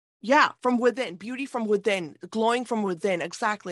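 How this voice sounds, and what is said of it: Excited, animated speech. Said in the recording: “you can hear it in my voice. I'm very, excited right now”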